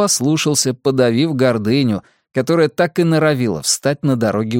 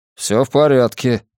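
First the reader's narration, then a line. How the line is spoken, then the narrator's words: Grumble. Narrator (Russian): проворчал я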